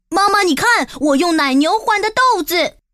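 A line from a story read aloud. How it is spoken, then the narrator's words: Joyful shouting. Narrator (Chinese): 杰克欢天喜地 大喊道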